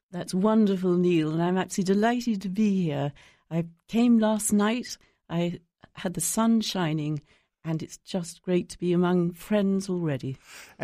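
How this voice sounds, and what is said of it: A noticeable, pleasant accent. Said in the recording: “your accent. It is wonderful and refreshing, and it's just beautiful.”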